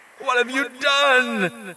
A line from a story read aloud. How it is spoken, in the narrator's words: she shouted